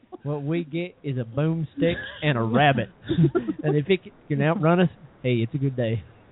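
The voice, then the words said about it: Put-on Alabama accent, slightly Australian. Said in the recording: “Is she from Alabama? ... I can do that accent real quick ... went a little Australian”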